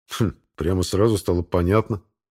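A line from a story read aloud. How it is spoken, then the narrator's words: Wry snort. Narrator (Russian): хмыкнул я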